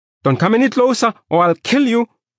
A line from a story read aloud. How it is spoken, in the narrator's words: I yelled